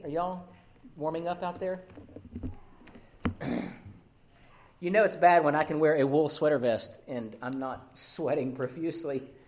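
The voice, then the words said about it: Hoarse, fading voice. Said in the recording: “my voice is, I'm losing it”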